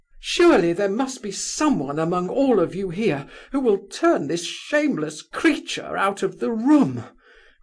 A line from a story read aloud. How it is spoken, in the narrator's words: cried Varia suddenly